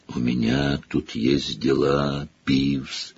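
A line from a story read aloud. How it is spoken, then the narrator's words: Creaky voice. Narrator (Russian): проскрипел Гарри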